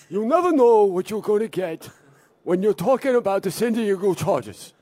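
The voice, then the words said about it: Imitates another person's voice. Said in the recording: “Bernie Sanders doing Forrest Gump ... impersonation”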